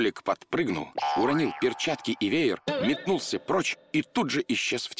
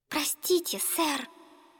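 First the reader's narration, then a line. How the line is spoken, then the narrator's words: Timid whisper. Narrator (Russian): она робко прошептала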